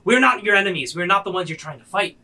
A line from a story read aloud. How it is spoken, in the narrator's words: He yells